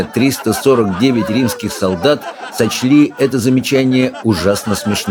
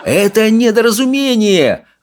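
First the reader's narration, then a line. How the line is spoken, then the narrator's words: Wailing. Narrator (Russian): вопил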